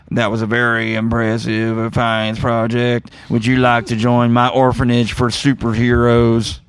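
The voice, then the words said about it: Imitated character voice, weak impression. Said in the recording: “This impersonation is not as good as the last one.”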